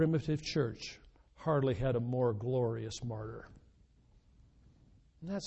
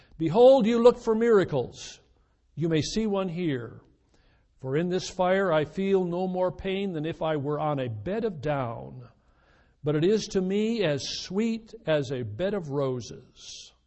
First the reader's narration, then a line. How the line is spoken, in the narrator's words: he exclaimed